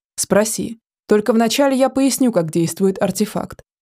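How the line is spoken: Snorting. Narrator (Russian): хмыкнул Тельбот

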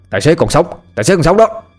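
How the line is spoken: Bystander shouting out. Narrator (Vietnamese): ai đó đứng gần la lên

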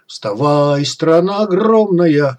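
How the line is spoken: Sudden operatic baritone roar. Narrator (Russian): Шип неожиданно взревел оперным баритоном

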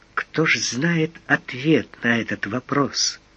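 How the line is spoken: Quiet speech. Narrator (Russian): тихо сказала она

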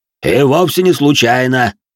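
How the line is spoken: Deep bass voice. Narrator (Russian): пробасил де Жориньи

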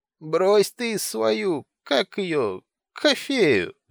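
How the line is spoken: Drunken babbling. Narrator (Russian): лепетал он, глядя на Горгия пьяненькими рыжими глазками

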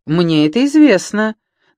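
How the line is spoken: Mocking retort. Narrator (Russian): насмешливо парировал Франсуа

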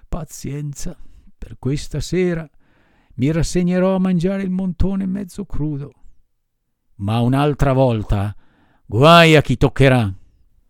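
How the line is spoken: Sighing addition. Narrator (Italian): soggiunse, sospirando

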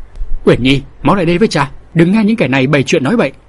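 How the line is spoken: Loud shout. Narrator (Vietnamese): Cầm Linh Quân hét lớn

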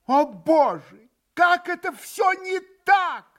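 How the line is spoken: Exclaiming. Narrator (Russian): воскликнула опять госпожа Хохлакова

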